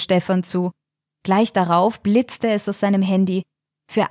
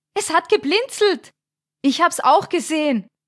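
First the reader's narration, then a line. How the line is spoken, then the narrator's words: Calling out excitedly. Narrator (German): rief Thomas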